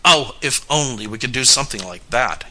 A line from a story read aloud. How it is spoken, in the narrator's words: cried his elder brother quickly